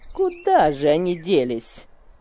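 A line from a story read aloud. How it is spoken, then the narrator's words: Grumbling. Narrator (Russian): ворчала она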